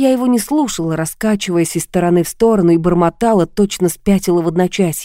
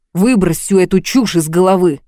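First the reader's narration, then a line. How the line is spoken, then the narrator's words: Bark. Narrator (Russian): рявкнул он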